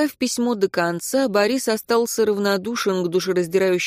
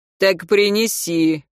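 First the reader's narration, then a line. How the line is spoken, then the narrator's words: Rude irritated command. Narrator (Russian): грубо приказал Горлоохватов, которому неприятно было убирать пустую ладонь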